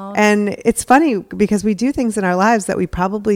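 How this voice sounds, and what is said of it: Usual voice. Nothing is said of it.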